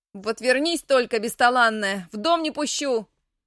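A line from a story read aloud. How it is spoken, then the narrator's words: Shouted. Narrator (Russian): Выкрикнула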